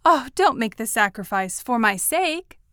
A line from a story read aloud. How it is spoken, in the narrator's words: I said anxiously